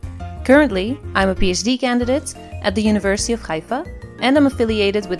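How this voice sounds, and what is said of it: Israeli-Dutch accented English. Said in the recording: “half Israeli and half Dutch, hence my funny accent.”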